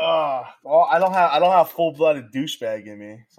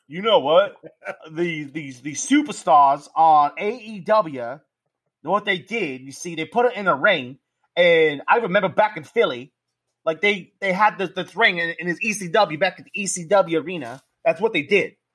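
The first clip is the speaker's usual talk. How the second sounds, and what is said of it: Bully Ray impression, Italian-sounding. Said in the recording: “Is that your Bully Ray impression? ... like it's uh, a, what was his name? The little Guido, the little Italian guy. That's who you sound like ... you sound like Nunzio ... that Bully Ray impersonation trash”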